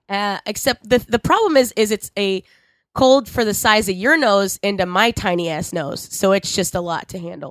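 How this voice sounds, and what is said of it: Sick, lower voice. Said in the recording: “You sound way worse than I sounded at any point... I'm sick... you do sound a little... more sultry... my voice is lower”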